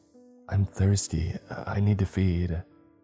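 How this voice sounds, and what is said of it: Quiet voice. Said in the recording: “she said in a quiet voice”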